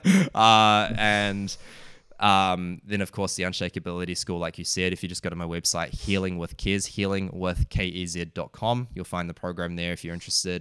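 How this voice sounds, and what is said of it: New Zealand accent. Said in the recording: “Excuse the uh, New Zealand accent there.”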